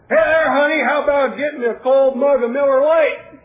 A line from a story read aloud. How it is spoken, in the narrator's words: hollered